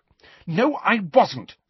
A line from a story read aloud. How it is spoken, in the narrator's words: she said angrily